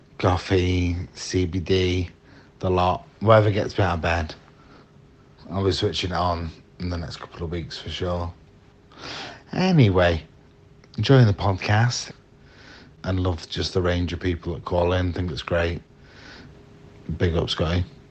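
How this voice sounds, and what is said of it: Northern English accent. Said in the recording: “you give me an accent that's north of Birmingham”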